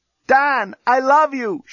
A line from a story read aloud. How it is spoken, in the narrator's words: shouted Lucy from her cell